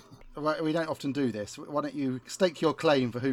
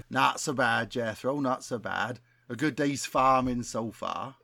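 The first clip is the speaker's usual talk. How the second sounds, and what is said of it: Weak put-on West Country accent. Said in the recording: “who can do the best West Country accent... I have not got a good West Country accent, so the bar is not high”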